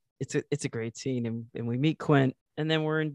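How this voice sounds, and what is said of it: Usual voice. Nothing is said of it.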